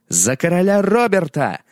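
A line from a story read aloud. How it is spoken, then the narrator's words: Battle cry shout. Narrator (Russian): закричал он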